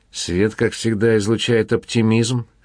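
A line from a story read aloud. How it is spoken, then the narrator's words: Chuckling. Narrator (Russian): хохотнул Дэнни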